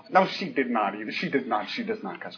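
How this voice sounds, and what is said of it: Imitating his mother's voice. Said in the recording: “I do a pretty good impression of my mom”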